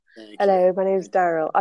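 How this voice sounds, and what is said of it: Attempted American accent. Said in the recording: “That's a nice attempt by you for an American accent.”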